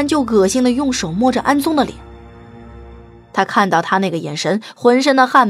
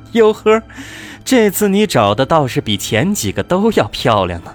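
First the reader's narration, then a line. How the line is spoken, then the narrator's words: Slight smile. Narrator (Chinese): 微微笑着说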